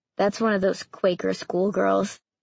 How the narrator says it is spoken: he murmured

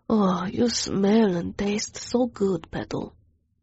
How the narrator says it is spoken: he murmured

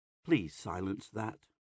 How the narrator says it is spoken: Pax murmurs

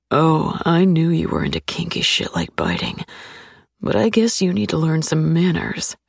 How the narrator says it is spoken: he murmurs in a low, dangerous tone

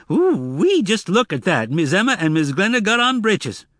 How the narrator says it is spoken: Frog was the first to notice, and he said loudly

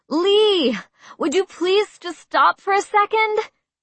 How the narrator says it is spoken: I yelled, clutching at the stitch in my side

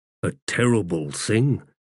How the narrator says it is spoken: muttered Stormy

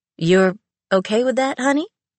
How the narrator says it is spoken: asked Eva hesitantly

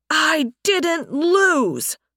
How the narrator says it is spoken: Sunstorm shouted

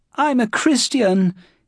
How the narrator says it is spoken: he was shouting

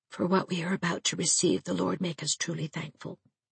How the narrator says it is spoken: Cyrus, blushing beet red, murmured almost inaudibly

